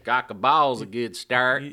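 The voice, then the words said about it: Southern accent, James Van Der Beek impression. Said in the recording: “in a southern accent ... it's James Vanderbeek doing it”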